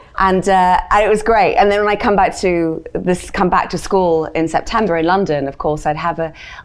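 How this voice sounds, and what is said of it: British English accent. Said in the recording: “despite the accent ... I became more British”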